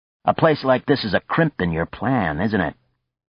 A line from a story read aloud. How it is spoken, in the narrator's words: Sharply, Frank said